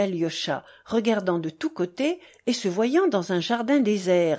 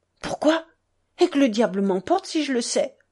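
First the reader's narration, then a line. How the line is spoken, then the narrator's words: Sudden loud exclamation. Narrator (French): s'exclama soudain Dmitri à pleine voix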